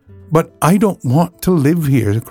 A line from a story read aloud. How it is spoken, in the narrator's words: cried Dorothy